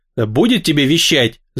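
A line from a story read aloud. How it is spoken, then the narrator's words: Angry interruption. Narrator (Russian): зло оборвал гнома Кан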